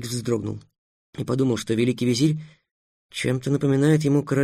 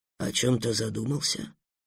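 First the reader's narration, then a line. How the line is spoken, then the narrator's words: Asked gently. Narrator (Russian): ласково полюбопытствовал Аблухай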